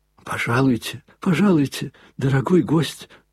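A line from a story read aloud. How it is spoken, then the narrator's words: Babbling. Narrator (Russian): залепетал он ему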